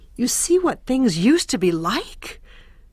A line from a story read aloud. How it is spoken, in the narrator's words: Her voice trembled with indignation